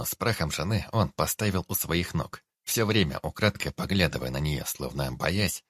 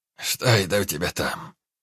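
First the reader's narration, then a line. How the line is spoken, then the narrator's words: Hoarse voice from behind. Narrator (Russian): хрипло донеслось из-за спины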